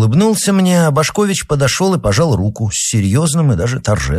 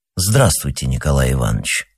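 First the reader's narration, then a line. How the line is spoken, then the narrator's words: Solemn. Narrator (Russian): сказал Башкович торжественно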